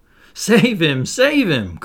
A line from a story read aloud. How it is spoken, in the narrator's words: cried Wendy, looking with horror